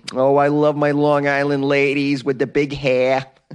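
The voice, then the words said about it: Attempted Long Island accent. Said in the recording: “Long Island. That accent is so tremendous. I'm trying to do it. I'm really not doing a good job of it.”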